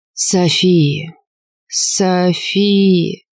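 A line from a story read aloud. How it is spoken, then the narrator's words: Drawn out, martyred. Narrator (Russian): Протянул он почти мученически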